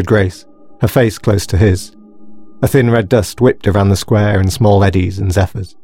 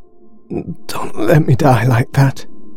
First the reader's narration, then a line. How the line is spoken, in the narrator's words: he moaned in a hoarse croak